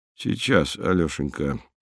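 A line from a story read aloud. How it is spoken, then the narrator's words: Strangled mutter. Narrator (Russian): сдавленно пробормотал Михаил Антонович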